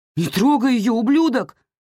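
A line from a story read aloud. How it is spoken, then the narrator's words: Yell. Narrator (Russian): заорал я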